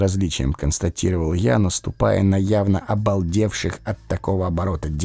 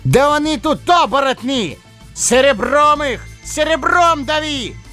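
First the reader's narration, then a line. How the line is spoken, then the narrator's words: Full-throated bellow. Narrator (Russian): заорал лис во всю мощь своей луженой глотки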